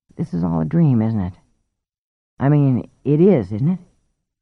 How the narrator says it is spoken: a deeper Mary was saying timidly

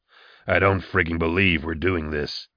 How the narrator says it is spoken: Nail grumbled

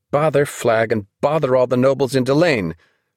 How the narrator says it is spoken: she cried with such force

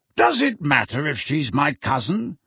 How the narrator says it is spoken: snapped Sirius

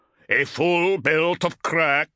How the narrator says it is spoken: Bryngar growled

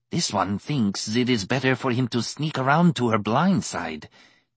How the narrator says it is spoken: Tizar hissed

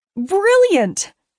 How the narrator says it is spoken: Ray yelled

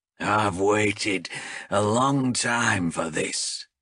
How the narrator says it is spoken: growled Azrek

